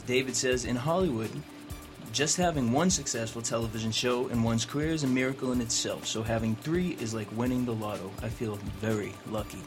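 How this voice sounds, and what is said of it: Boston accent. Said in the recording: “We're going to work on losing your Boston accent.”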